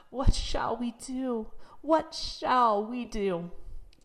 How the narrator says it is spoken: the good, hard-working mother threw her apron over her head and sobbed

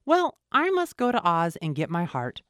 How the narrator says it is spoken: said the Woodman

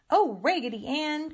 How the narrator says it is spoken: cried the French dolly

